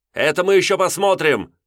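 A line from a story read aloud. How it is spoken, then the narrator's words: Shouting. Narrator (Russian): закричал Нелидов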